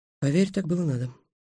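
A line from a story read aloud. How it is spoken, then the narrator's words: Quiet reply. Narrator (Russian): тихо ответила Калька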